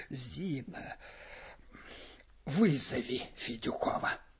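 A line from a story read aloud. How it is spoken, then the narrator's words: Dull, muffled voice. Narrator (Russian): сказал глухо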